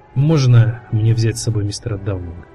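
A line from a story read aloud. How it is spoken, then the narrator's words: Plain. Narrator (Russian): спросил он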